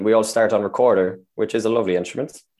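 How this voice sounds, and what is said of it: Sarcastic tone. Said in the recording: “hear the sarcasm in my voice”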